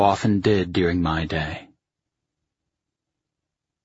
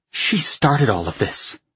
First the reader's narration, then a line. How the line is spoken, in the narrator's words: she hissed